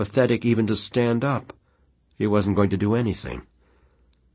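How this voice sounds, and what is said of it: Usual voice. Nothing is said of it.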